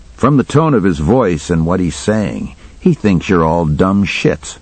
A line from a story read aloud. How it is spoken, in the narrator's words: I said